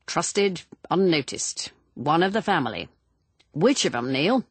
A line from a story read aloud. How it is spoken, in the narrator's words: Neil said dryly